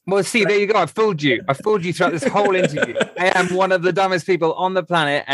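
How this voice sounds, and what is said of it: English accent. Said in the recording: “Hell of an accent, hell of a voice. I love the English accent, man. ... if you have an English accent,”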